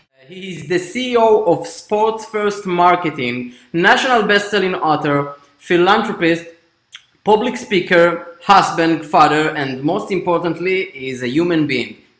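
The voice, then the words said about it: Jewish-accented English. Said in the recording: “with the sexy Jewish accent”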